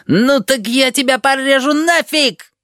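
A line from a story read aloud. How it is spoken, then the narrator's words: Yelling. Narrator (Russian): вопит гибрид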